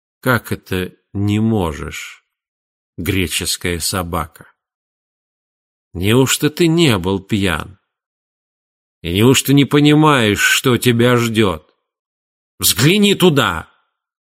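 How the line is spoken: Muffled menacing question. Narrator (Russian): Тигелин … также приглушенным, но грозным голосом спросил

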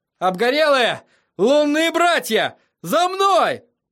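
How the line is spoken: Shouted. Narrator (Russian): Тирион закричал

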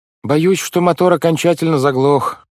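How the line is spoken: Shout. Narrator (Russian): крикнул мистер По

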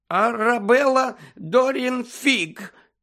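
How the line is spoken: Trembling voice. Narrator (Ukrainian): відповіла тремтячим голосом

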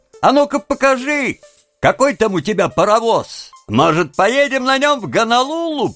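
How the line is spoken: Mocking shout. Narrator (Russian): один из них крикнул

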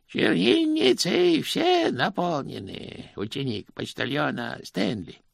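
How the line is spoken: Sing-song. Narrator (Russian): нараспев произнес он

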